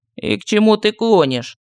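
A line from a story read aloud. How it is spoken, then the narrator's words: Weary. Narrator (Russian): устало спросил медальон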